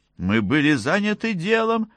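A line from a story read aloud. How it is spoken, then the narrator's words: Plain. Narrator (Russian): сказала Джейми Майку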